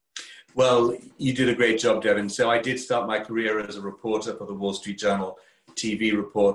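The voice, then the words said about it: English accent from Kent. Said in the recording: “my English accent all the way from Kent, England”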